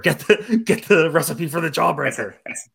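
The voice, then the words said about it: Creepy character voice. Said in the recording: “the creepy guy that's like the jawbreaker ... creepy voice.”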